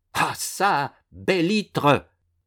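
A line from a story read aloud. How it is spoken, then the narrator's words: Exclaiming. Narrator (French): s'écria l'illustre écrivain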